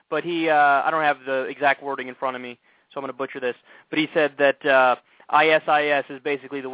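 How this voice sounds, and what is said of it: Usual voice. Nothing is said of it.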